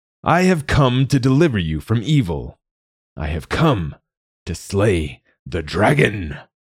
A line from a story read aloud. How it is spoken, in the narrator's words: Sir Goodwin shouted